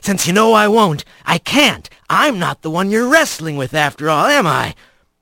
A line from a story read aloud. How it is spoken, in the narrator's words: the trickster hissed